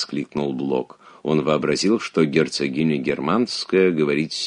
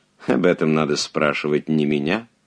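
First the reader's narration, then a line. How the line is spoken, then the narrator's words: Mocking reply. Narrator (Russian): насмешливо ответила герцогиня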